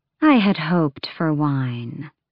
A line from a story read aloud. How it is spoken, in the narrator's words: Maeve said smoothly